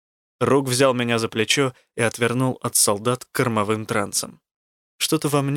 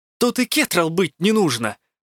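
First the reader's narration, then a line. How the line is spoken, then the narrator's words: Exclaiming. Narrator (Russian): воскликнул я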